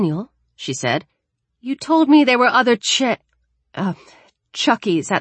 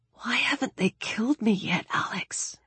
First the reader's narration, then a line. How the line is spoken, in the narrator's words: He whispered